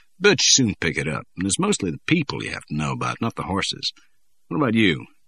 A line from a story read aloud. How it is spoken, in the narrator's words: He lowered his voice